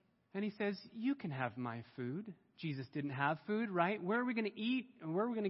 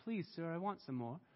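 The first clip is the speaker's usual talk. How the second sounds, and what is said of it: Put-on English accent. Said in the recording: “He has an English accent”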